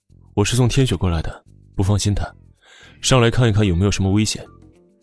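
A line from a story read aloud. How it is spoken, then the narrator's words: Cold, frowning demand. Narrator (Chinese): 蹙着眉，冷声的质问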